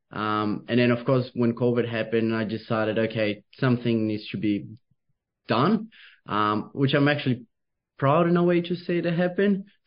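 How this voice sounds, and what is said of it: Slight Brazilian Portuguese accent. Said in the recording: “I've got a little bit of accent. So originally from Brazil ... Beautiful accent.”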